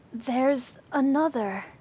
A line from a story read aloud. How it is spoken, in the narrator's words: Lee breathed, wide-eyed